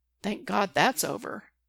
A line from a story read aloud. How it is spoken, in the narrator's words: Derek mutters